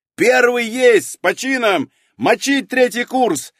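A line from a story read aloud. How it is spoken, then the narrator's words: Yelling at full volume. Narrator (Russian): заорал я во все горло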